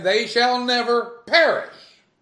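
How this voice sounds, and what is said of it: Loud, every word emphatically stressed. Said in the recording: “you can accent them all. ... I hope I didn't hurt nobody's speakers with that.”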